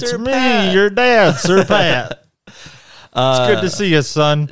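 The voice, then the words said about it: Imitates another person's voice. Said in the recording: “How do you do a Sir Patrick... Stuart, Sir Pat voice. ... Nailed it.”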